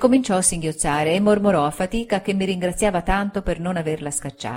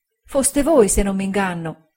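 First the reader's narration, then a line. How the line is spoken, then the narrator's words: Tear-choked woman's voice. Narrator (Italian): ella disse con voce soffocata dal pianto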